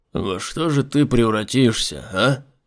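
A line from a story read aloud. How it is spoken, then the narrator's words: Muttering. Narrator (Russian): пробормотал он своей подопытной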